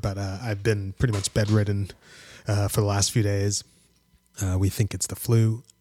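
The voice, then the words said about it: Slightly sore, sick-sounding voice. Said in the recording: “been kind of sick for a little bit... my voice is a little sore”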